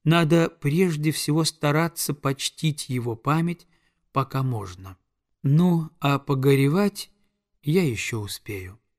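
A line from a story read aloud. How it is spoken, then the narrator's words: Solemn, mature beyond years. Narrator (Russian): произнесла Оса, умевшая говорить торжественно и не по годам разумно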